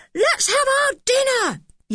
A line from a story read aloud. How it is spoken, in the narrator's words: yelled Dick, who was feeling terribly hungry as usual